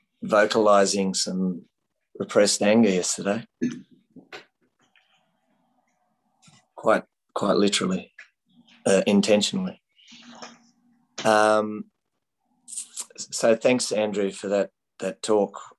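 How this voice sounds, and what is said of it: Hoarse voice. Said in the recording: “I'm a bit hoarse”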